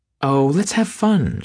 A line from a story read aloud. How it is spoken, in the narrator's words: she begged him